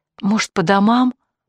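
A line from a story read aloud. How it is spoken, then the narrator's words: Timid suggestion. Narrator (Russian): робко предложила Оксана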